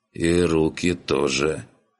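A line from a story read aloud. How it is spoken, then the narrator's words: Sighing. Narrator (Russian): вздохнул гном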